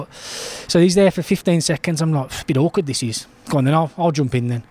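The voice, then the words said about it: Liverpool accent. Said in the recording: “the Liverpool lad ... my accent did as well”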